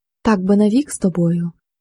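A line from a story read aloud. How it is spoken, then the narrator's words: Whispering woman. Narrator (Ukrainian): почала шепотіти пані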